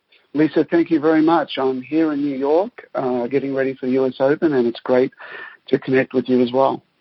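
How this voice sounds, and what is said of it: Australian accent. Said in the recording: “the lovely Australian accent”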